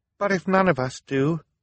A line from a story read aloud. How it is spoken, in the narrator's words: Violet said tearfully